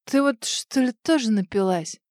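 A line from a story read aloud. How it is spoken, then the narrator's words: Hoarse, wincing. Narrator (Russian): Морщись, прохрипел он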